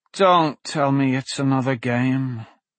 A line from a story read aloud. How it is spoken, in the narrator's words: Blaze groaned